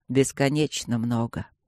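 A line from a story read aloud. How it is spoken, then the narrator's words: Quiet speech. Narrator (Russian): сказал он тихо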